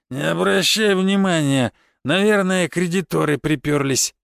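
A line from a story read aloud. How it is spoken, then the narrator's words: Dismissive snort. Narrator (Russian): хмыкнул барон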